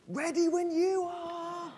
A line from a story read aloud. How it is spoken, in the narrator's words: the cameraman shouted